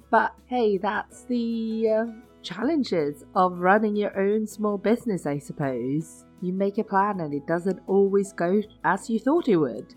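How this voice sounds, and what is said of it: Crackling voice, recovering from voice loss. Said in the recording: “My voice is slowly coming back. You'll probably hear it crackling a little bit”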